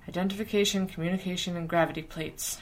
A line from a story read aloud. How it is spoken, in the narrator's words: Virgil muttered